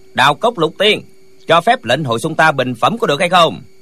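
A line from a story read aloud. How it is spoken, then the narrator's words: Loud. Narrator (Vietnamese): Chàng liền lớn tiếng nói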